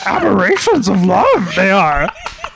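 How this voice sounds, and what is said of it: Yoda-style character voice. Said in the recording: “I can do a decent Yoda voice”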